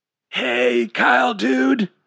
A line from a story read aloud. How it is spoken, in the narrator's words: he said in a raspy voice